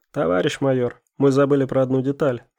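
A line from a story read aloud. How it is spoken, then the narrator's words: Plain. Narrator (Russian): сказал Шишков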